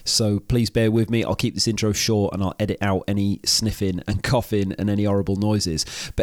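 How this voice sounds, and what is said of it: Congested, rough-sounding voice. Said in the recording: “excuse my voice in this intro. I've got a bit of a cold. ... you feel completely fine but you sound terrible”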